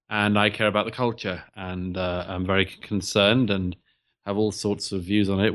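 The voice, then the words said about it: British accent. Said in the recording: “I do a lot in the UK in particular, where I'm from, as I'm sure your listeners can tell from my accent.”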